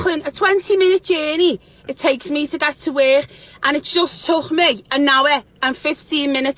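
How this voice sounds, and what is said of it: Northern English accent. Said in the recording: “she's from the north of England”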